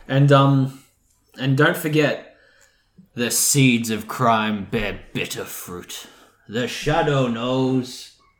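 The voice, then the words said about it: Attempted deep-voiced radio character. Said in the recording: “I'll never get that impression. I can't do deep voices. My deepest voice is me talking.”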